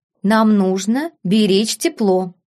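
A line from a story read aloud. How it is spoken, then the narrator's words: Calm. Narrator (Russian): спокойно ответил герцог Аргайл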